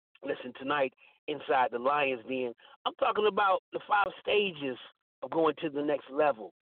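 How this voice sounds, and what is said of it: Tired, fatigued voice. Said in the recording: “If you can hear the fatigue in my voice, that's because I'm tired”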